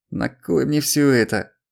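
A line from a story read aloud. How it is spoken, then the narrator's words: Groaning in pain. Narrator (Russian): простонал он, морщась от боли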